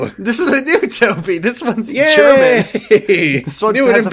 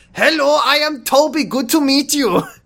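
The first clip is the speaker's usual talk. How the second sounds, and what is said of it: Fake German accent. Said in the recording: “a fake German accent”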